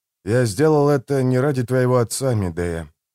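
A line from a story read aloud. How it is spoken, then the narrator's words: Sigh. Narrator (Russian): вздохнул я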